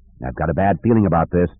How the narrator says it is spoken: Han mumbled

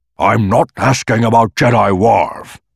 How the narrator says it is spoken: snapped

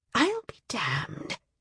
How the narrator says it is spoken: it said softly

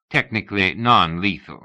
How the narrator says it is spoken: said Rats

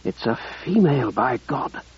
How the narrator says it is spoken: Ruddy breathed

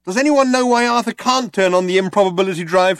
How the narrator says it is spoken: shouted Trillian

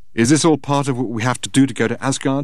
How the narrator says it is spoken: she said

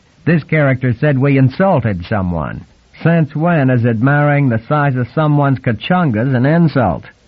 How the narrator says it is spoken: He chuckled to himself at his cleverness

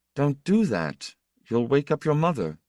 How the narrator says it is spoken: Itale … uneasily and said in a low tone

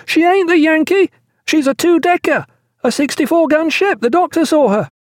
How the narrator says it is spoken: he shrieked to Pullings

